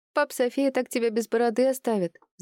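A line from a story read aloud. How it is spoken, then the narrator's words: Laughing. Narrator (Russian): засмеялась Данелия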